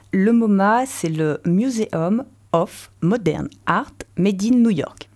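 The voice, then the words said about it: French-accented English. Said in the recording (French): “Excuse me for le non-English accent comme d'habitude.”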